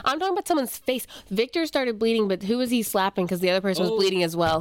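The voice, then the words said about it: Speaks with a noticeable accent. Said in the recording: “If my accent is going to be a problem”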